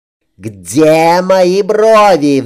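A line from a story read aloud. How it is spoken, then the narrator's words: Roaring. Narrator (Russian): взревела под стать своему отцу Катрин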